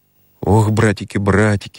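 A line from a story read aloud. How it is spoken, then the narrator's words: Stammering, sobbing babble. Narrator (Russian): залепетал Петька Жезла, заикаясь и всхлипывая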